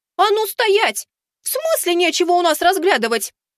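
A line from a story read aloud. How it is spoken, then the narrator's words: Outraged young woman shouting. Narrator (Russian): В еще большем возмущении закричала девушка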